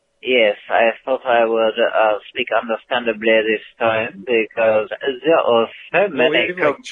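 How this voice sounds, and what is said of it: Put-on French accent. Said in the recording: “Here I am speaking in the understandable range of my French accent.”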